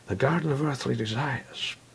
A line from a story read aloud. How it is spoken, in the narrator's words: she replied in a contradictory tone